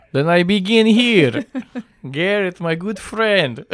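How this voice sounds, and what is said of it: Put-on Russian vampire-like accent. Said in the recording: “in a Russian accent ... I sound like a vampire ... It's a little Halloween for you. It's a little Transylvania.”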